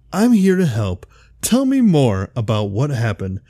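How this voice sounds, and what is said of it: Friendly customer service voice. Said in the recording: “with a huge sympathetic smile on my face and the best friendly customer service voice”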